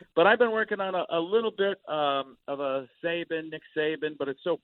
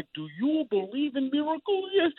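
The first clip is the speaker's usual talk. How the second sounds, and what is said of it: Al Michaels impression. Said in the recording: “my Al Michaels is just I never say you don't say the word ball. You just say football. What, I don't know what his accent is, but it's his own personal Michaels dialect.”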